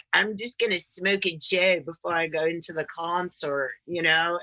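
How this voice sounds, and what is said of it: Put-on Hesher metalhead accent. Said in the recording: “what was that accent? ... It was like a Hesher accent.”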